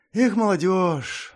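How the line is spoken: Sighing. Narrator (Russian): вздохнула Пакс

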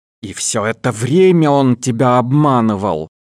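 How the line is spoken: Growling. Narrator (Russian): рычала Молли

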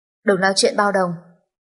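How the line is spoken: Cold voice. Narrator (Vietnamese): thanh âm lạnh lẽo

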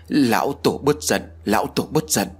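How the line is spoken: Trembling voice. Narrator (Vietnamese): Hắn giọng điệu run rẩy nói

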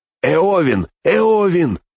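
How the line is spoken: Shout. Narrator (Russian): крикнул Мэри

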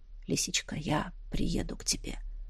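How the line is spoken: Hoarse promise. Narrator (Russian): хрипло пообещал он

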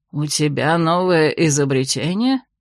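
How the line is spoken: Envious grumble. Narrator (Russian): с откровенной завистью буркнул Десартена

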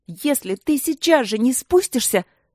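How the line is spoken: Shout over wind. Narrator (Russian): прокричала она сквозь порывы холодного и влажного воздуха

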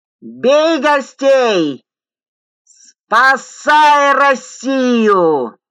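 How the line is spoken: Drunken man bawling. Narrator (Russian): Завопил испитой мужичонка

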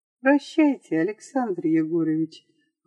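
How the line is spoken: Sad. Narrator (Russian): грустно сказала

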